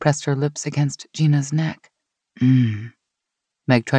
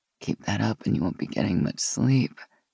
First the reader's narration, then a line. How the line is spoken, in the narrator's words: Gina said with a low groan